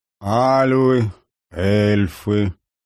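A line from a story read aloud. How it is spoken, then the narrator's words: Slow. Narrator (Russian): медленно произнес Пауль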